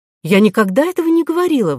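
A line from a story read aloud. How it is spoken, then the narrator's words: Indignant. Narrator (Russian): возмущенно ответила Кора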